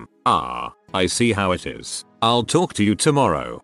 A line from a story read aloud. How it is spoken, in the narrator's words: she says